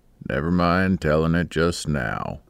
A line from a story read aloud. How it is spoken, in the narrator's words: he said in a gruff voice, but with real gentleness